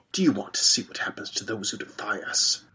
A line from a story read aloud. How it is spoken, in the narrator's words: He whispered, his hot breath in my ear